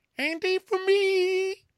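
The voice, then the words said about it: High-pitched squealing Candy impression. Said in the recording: “It was a pure Candy squeal.”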